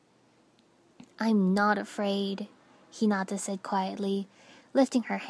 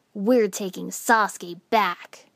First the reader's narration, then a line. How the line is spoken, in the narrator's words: Naruto growled, the statement coming from more than one throat